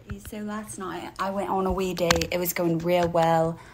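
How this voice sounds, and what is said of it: Comedically stupid voice. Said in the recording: “in this comedically stupid voice,”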